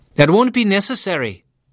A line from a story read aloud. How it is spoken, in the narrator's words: the customs officer snapped